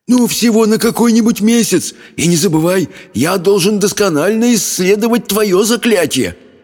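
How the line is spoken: Pleading demon. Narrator (Russian): взмолился демон

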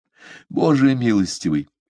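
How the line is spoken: Fervent pleading. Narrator (Russian): горячо взмолился он

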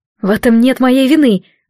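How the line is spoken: Exclaiming. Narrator (Russian): воскликнула

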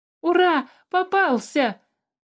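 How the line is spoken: Joyful shout. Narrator (Russian): радостно закричал Тимиук

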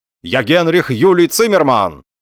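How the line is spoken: Confused shouting. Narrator (Russian): в его взбаламученной голове соскакивал какой-то рычажок, и он, путая, кричал

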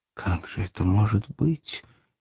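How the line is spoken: Involuntary question. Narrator (Russian): невольно спросила Маргарита

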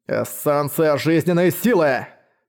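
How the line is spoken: Growl. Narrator (Russian): прорычал жадность

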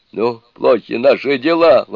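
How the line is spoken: Exclaimed. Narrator (Russian): воскликнул Джубадзе

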